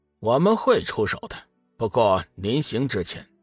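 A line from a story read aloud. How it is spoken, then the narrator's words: Laughing. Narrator (Chinese): 闪电三号笑道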